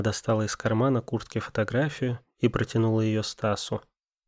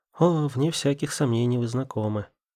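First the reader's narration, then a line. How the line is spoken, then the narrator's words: Ringing laughter. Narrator (Russian): засмеялась звонким смехом Джессика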